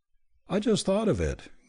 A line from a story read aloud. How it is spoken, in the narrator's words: Gay said, with an uncomfortable laugh